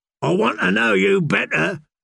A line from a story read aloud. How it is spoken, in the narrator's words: shouted